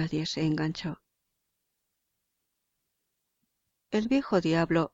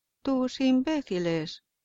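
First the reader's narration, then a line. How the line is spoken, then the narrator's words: Plain. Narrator (Spanish): dijo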